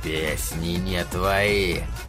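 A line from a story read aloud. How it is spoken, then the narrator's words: Growled. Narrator (Russian): прорычал он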